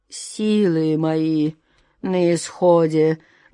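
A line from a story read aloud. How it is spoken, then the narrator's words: Muffled hollow voice. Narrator (Russian): глухо продолжал он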